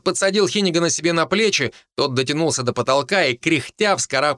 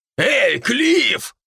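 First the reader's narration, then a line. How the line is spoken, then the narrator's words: Barked upward. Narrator (Russian): рявкнул в потолок Дарт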